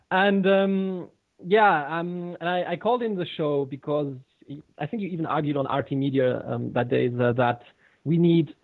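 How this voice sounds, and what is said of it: German speaker with English-influenced accent. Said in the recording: “I'm from Germany and I've been brought up by an English mother. So there, hence my accent”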